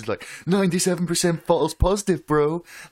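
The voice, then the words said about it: Mocking know-it-all gym bro voice. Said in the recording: “I always do that voice for that kind of person ... Jim bro trying to give you science”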